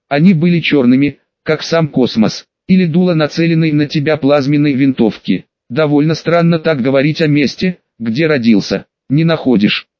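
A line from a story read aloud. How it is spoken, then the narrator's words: Plain. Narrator (Russian): спросила девушка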